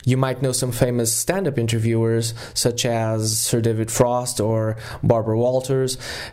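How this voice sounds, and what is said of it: Portuguese accent in English. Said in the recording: “if you're a native English speaker and you notice some shifts in my accent, that is because I am, in fact, Portuguese”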